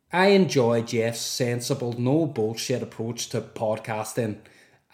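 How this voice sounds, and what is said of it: Attempted Northern Irish accent. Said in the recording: “I'm going to try and do Northern Irish... That went bad quick, didn't it?”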